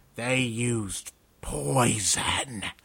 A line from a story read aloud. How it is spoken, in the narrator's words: the Tangresh spat